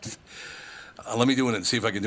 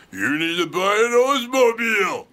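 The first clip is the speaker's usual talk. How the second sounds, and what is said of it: Imitates another person's voice. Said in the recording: “can do an impression of him ... Sounds like you when you're drunk.”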